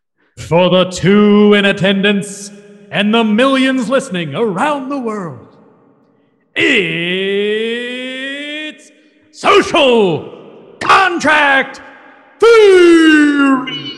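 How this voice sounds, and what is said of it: Wrestling announcer voice. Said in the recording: “in a wrestling voice”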